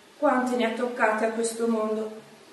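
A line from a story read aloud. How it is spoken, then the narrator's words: Sighing. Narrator (Italian): sospirava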